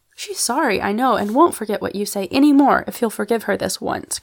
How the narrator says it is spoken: cried Polly, very earnestly

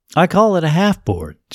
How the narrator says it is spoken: she said

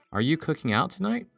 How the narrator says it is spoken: she asked

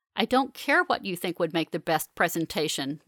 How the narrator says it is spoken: March snaps

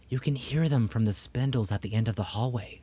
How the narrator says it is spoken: she whispered

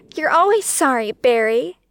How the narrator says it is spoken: she snapped back

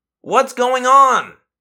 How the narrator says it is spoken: I yelled up at him

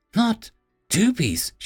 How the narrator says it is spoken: she asked in an aghast tone

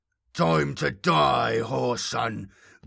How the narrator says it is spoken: growled Eshmun, his voice wet and throaty

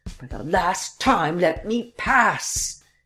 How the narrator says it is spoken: he cried

